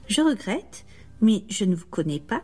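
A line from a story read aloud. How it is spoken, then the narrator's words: Plain. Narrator (French): dit-il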